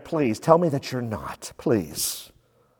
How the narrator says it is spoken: Probably under his breath, he's saying

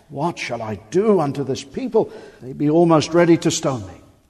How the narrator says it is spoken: Moses cried unto the Lord, saying

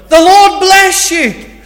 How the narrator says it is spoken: you shout over to them

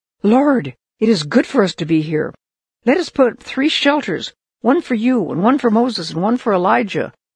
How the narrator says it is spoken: he just blurted out

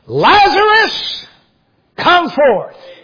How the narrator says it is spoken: he cried with a loud voice

